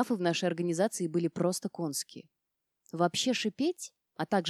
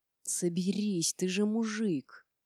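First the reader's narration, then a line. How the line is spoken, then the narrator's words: Hissed through teeth. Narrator (Russian): Сквозь зубы прошипела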